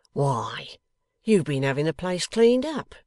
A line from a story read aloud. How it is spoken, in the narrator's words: he exclaimed